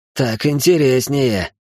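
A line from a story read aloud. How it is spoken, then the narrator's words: Amused snort. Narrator (Russian): хмыкнул Мартин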